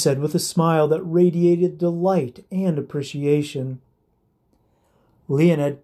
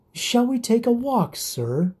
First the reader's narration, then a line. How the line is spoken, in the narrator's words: asked sweetly